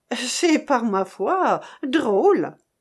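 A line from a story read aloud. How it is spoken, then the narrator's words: Exclaimed. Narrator (French): s'écria l'hôtesse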